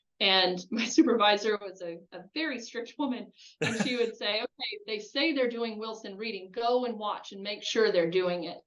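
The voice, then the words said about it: Southern American accent. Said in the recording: “I'm an intern with a Southern accent”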